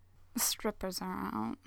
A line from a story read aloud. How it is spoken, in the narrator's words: murmurs